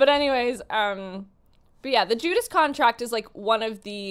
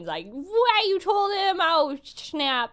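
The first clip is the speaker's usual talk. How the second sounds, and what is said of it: Bad impression of a cartoon character. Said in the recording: “doing a really bad impression of Terra”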